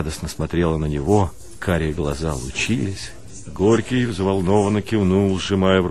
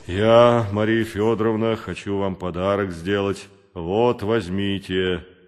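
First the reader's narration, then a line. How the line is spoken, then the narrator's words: Deep bass voice. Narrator (Russian): пробасил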